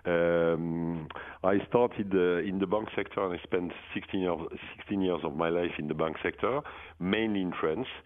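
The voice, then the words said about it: French-accented English. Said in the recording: “Oh, that's a French accent. I was thinking it was Michigan.”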